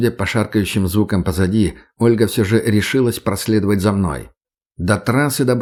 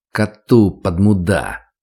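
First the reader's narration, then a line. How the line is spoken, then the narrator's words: Irritated, through gritted teeth. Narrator (Russian): раздраженно сквозь зубы ответил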